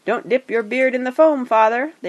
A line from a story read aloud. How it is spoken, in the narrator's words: they cried to Thorin, who was bent almost onto his hands and knees